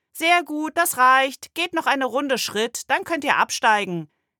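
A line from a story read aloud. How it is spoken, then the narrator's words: Called out. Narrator (German): rief Frau Clausen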